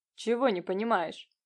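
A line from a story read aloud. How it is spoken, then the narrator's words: Curt, clipped. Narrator (Russian): произнес Нелидов отрывисто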